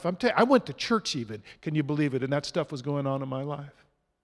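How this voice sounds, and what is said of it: Sarcastic tone. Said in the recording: “being sarcastic”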